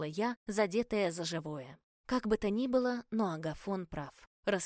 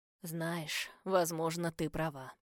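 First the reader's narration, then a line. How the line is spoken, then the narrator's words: Gloomy. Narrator (Russian): мрачно откликнулся Агафон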